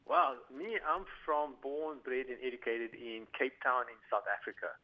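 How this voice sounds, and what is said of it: South African accent. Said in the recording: “I'm picking up an accent there. What accent?”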